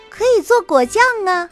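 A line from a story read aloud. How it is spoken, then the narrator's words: Shouted. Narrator (Chinese): 不知道是谁喊了一声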